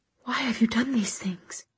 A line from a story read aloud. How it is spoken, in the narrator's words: she said in a hushed voice